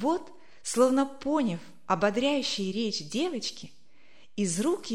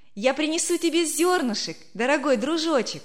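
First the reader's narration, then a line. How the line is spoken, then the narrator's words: Cheerful shout. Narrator (Russian): весело крикнула Верочка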